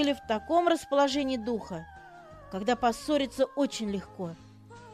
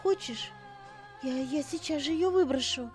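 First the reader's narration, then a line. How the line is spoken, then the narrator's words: Sad. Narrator (Russian): сказала с грустью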